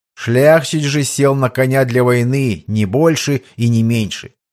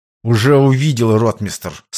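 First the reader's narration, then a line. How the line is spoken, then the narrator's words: Through gritted teeth. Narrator (Russian): сквозь зубы процедил полковник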